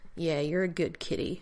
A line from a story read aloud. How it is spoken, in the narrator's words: the Marine on the left muttered